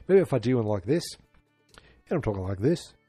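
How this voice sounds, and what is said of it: Attempted Irish accent. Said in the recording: “I'm going to try to do an Irish. I'm going to do an Irish accent... Oh, I'm doing an Irish accent... I don't think I'm doing a...”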